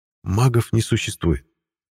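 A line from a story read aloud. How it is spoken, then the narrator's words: Gentle remark. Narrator (Russian): мягко заметил Ласло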